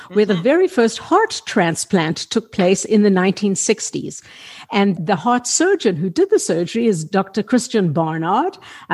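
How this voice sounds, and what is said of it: South African accent. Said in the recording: “people listening to this will detect an accent, but I'm originally from South Africa”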